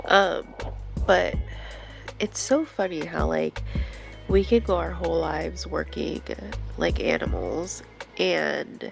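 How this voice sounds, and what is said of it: Deep, sick-sounding voice. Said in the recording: “I sound like a man because I'm super sick.”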